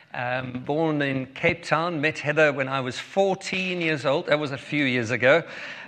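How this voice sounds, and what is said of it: South African accent. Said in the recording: “If you um, have already been listening to my accent, you'll know that we are from South Africa.”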